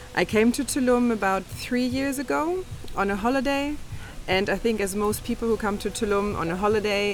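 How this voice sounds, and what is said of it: Slight Australian-tinged accent. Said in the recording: “you might be able to detect from my accent here or there that I spent a long time in Australia”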